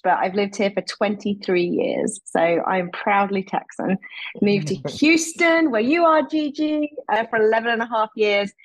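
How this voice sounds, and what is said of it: British accent. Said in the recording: “As you can tell from my accent ... the accent is British”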